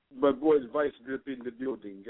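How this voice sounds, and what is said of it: Fake Jamaican accent. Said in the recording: “I got to use my fake behind Jamaican accent just for this.”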